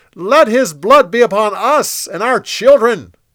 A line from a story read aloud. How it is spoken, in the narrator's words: They shouted